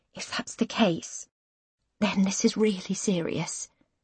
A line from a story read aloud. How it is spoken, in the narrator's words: she whispers